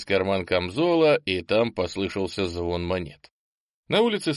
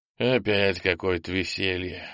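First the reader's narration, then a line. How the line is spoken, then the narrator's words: Displeased sigh. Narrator (Russian): вздохнул попаданец, недовольный тем, что к входу в ржавый якорь придется делать крюк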